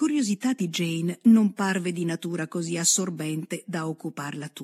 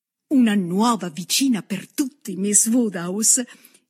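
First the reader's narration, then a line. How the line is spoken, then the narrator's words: Joyful exclamation. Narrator (Italian): esclamò festosamente la signorina Bates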